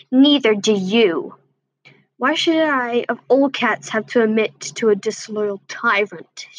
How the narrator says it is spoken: snarled threateningly

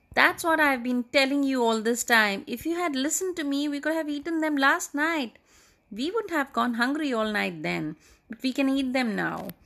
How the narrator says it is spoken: the old woman also shot up and cried

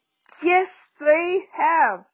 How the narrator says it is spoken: yelled Mrs

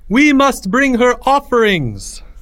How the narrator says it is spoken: the high priest cried out

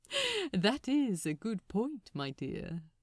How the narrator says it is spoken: laughed

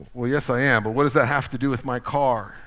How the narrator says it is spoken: asked the lawyer

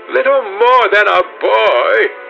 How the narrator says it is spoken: she sneered

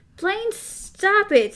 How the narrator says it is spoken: Susanna shrieked

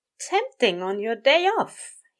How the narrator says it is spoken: he said brightly

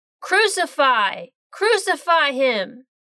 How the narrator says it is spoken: they shouted, saying

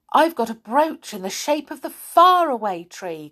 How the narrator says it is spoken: cried Franny

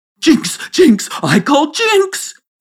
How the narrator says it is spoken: he shrieked with laughter

